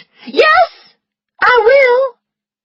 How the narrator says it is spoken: Scarlet heard herself shout

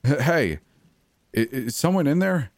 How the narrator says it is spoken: I stuttered with anxiety

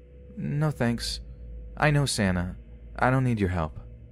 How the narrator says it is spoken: he replies flatly

